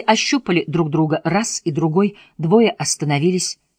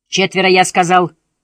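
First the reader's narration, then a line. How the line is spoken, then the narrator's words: Hysterical yell, sergeant. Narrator (Russian): истерически завопил сержант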